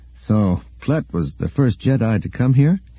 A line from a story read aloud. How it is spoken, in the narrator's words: he asked